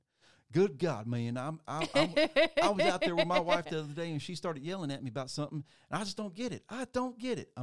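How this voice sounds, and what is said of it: Put-on country accent. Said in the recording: “I'm doing a country accent”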